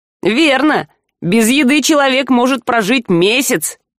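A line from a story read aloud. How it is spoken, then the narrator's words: Snide reminder. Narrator (Russian): ехидно напомнил Жар Альку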